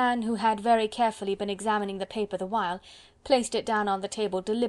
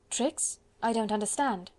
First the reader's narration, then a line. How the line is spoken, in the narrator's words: she said quietly, for she was not afraid